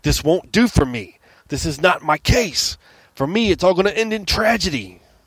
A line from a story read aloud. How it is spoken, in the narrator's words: he slowly leaned forward and, barely able to restrain himself, practically shouted in my face